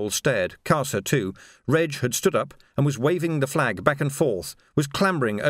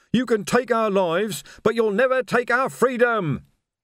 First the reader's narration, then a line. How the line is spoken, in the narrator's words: he screamed